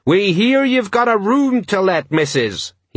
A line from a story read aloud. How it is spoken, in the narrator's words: he yelled